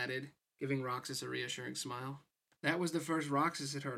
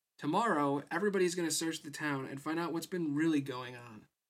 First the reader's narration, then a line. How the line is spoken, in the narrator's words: Pence said brightly